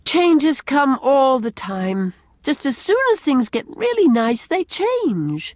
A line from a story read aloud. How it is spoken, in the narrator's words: she said with a sigh